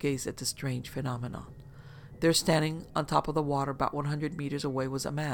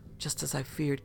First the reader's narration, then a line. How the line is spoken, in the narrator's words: Kaz mumbled